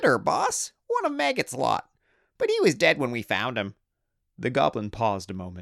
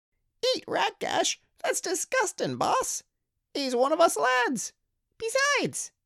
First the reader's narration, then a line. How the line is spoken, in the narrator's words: squeaked another greenskin